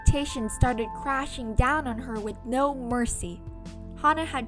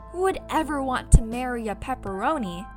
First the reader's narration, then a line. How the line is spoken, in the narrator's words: her parents sighed and said